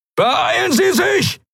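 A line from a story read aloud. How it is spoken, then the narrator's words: Shout. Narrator (German): schrie Helios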